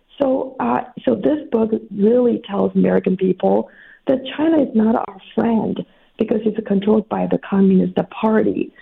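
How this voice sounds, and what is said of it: Voice affected by a cold. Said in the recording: “sorry about my voice. I caught a cold”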